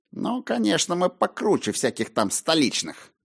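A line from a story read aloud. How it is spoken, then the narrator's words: Angry mutter. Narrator (Russian): В сердцах буркнул он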